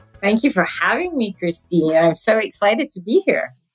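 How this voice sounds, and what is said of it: Non-American, British-influenced accent. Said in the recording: “Definitely from your accent, I can tell that you did not grow up here in the United States ... My accent is not from the U.S. I grew up in the U.K., but I'm originally from Sudan.”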